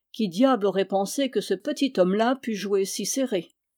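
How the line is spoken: Grumbling. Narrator (French): Il grommela

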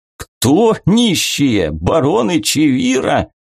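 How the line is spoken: Loud guffaw. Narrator (Russian): Эдорик захохотал, подняв переполох в едальном зале

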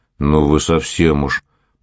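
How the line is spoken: Grumbled. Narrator (Russian): пробурчал Силуяныч

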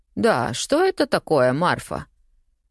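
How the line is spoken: Aunt's cold inquiry. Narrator (Russian): холодно поинтересовалась и тетушка

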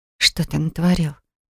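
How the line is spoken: Barely audible whisper. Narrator (Russian): прошептала едва слышно

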